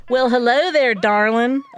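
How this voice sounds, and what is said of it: Syrupy exaggerated Southern drawl. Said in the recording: “a voice with a syrupy and exaggerated Southern accent drawls”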